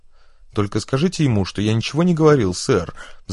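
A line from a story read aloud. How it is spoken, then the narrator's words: Pleading, wretched. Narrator (Russian): взмолился несчастный Фриш, и его лицо перекосилось от страха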